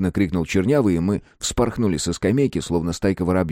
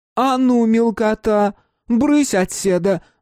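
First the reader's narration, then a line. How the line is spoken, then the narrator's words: Woman shouting. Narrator (Russian): закричала толстая женщина в цветастой косынке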